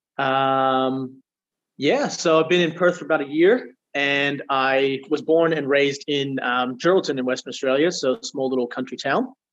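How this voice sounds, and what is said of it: Strong American accent. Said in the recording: “it sounds like you've got an American accent ... The accent is strong.”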